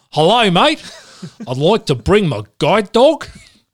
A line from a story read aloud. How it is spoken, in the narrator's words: I think in the Australian accent